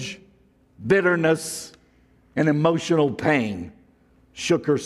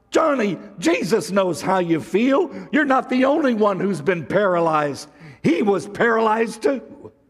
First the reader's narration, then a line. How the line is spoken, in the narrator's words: Suddenly, Cindy blurted out